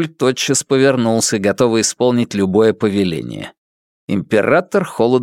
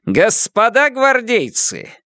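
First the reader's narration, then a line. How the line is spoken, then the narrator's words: Shouted. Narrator (Russian): крикнул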